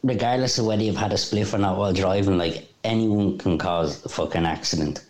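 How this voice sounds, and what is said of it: Dublin Cabra accent. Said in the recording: “That accent's a cabra accent. ... That has cabra all over it. That smells a cabra, that accent.”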